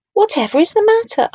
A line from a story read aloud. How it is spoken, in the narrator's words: asked Walter in a worried voice